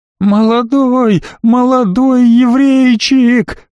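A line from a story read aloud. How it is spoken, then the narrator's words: Continued shrieking. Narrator (Russian): продолжил визжать эконом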